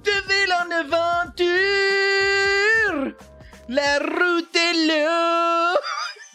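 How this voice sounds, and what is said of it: Loud singing, Franco-Ontarian accent, rolled Rs. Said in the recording (French): “il chante du Brain LaBeouf comme Brain LaBeouf chante du Brain LaBeouf. C'est-à-dire avec son accent franco-ontarien ou franco... il roule ses R ... il se met à chanter bien fort”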